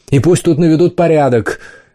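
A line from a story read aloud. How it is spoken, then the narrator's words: Shouting after them. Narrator (Russian): крикнул им вслед Варталис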